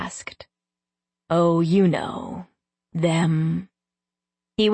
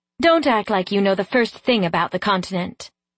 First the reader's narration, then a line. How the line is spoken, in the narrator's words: I snapped